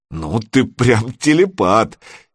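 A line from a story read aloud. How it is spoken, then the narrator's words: Relieved laughter. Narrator (Russian): Серега облегченно засмеялся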